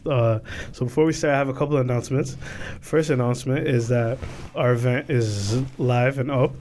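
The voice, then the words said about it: Slightly sick-sounding voice. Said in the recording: “I am under the weather again, still. So you can hear it in my voice a little bit.”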